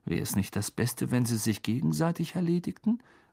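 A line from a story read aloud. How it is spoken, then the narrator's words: Murmured into ear. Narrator (German): murmelte Ron Harry ins Ohr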